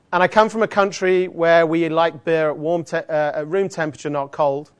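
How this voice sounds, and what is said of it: Australian accent. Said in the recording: “who is this guy with the strange accent? ... I'm not from around here ... Are there any Australians in the room? ... despite the accent”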